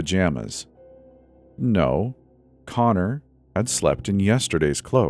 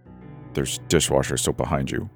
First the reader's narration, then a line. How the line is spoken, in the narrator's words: grumbled, stuffing them into his mouth